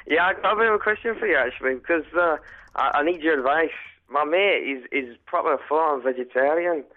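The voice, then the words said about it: Essex accent. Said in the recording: “what is the accent that you're trying to do? ... Well, I'm from Essex. ... OK, and the accent you're trying to do is...? ... Essex.”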